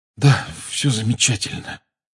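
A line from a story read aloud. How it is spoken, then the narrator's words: Hoarse mutter. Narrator (Russian): хрипло пробормотал Гарри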